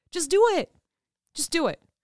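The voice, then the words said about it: Loud, yelling delivery. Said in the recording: “Did I yell at you enough? I'm so loud sometimes.”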